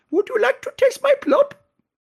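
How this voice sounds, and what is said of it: Put-on Swedish accent. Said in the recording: “someone in a Swedish accent?”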